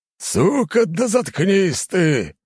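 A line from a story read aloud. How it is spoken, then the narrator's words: Harsh bark. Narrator (Russian): рявкнул командир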